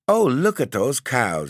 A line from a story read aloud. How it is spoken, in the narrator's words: exclaimed the aunt